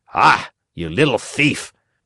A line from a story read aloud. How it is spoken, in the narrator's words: said the farmer in an angry voice